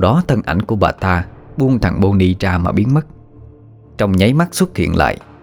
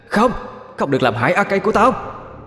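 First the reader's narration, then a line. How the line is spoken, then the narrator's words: Sudden ghostly woman's scream. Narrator (Vietnamese): hồn ma người đàn bà bên kia chợt thét lên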